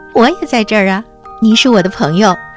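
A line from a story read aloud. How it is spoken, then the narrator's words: Smiling child. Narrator (Chinese): 雪孩子笑着说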